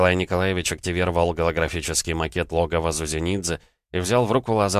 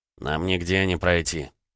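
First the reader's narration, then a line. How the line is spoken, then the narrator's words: Grumbling mumble. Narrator (Russian): пробурчал Митроха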